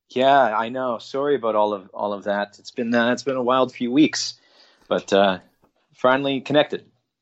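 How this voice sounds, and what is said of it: Canadian accent. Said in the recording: “the most Canadian thing ever said ... you said, "I'm sorry about that." ... my accent's coming through”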